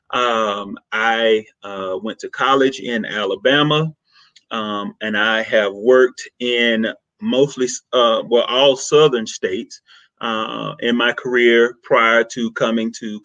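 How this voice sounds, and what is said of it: Southern American accent. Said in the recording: “if you can't tell by the accent, I am definitely from the South. I am Southern to the core. I was born and raised in Mississippi.”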